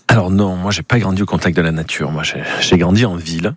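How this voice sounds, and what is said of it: Slight southern French accent. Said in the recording (French): “je viens du sud, ça s'entend peut-être dans un petit accent”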